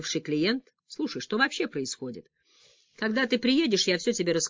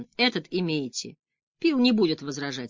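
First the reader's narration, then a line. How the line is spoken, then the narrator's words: Calm. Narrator (Russian): спокойно пояснил я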